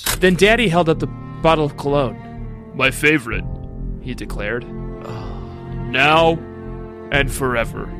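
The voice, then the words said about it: Lowered man's voice. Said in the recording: “Let me do that in a man voice instead of my squeaky boy voice. ... could you do that in a man voice instead of your boy's voice?”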